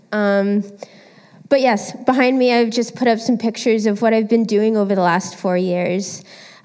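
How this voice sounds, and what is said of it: Congested voice with a cold. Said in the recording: “I have a bit of a cold.”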